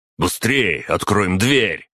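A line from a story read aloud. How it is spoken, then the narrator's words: Urgent shout. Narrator (Russian): закричал Бур, понимая, что сейчас дорога каждая секунда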